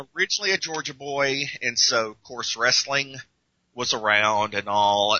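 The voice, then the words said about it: Southern American twang. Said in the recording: “I hear a bit of a twang in the voice”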